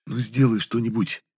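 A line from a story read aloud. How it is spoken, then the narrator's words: Pleading soundless whisper. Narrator (Russian): умоляюще одними губами шепнул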